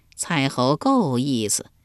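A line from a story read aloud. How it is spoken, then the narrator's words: Cheerful, laughing. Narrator (Chinese): 树雕 笑呵呵地说道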